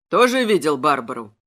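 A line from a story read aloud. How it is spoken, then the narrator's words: Gloomy question. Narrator (Russian): мрачно спросил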